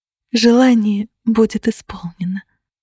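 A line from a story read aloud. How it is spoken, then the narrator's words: Joyful whisper. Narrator (Russian): радостно прошептала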